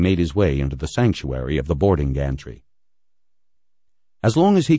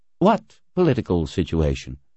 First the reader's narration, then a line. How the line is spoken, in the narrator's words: Floyd asked dryly